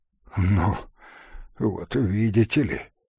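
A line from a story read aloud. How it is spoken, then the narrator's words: Muttered. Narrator (Russian): пробормотал Коврин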